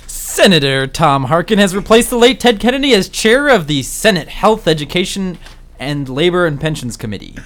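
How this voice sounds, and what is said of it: Mock public radio announcer voice. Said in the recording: “your best NPR voice”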